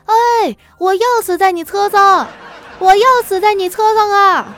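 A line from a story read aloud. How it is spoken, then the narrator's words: Shouting loudly. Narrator (Chinese): 对着那司机大喊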